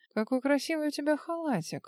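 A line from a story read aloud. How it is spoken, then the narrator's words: Breathy, close to neck. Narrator (Russian): выдохнул ей в шею он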